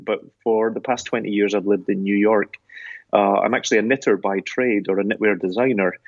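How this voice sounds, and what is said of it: Scottish accent. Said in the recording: “You can probably tell I'm a Scotsman by my accent”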